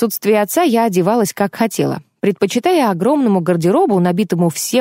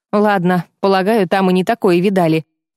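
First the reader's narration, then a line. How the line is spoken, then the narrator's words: Grumbling. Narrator (Russian): проворчал он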